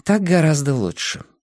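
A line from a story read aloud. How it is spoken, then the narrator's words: Happy sigh. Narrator (Russian): радостно вздохнула она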